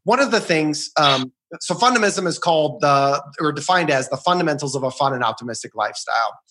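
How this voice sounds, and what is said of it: Rushed, rattled-off fast speech. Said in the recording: “Say it slower ... as you're rattling it off like you said it 100 times”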